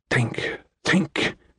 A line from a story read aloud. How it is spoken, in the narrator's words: Skylar whispered to himself